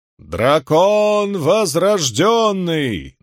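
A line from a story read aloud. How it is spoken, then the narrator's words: Grey-haired man's chanted proclamation. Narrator (Russian): нараспев провозгласил седовласый мужчина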